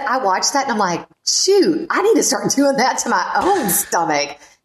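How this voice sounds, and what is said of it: Country accent. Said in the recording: “I've got a country accent”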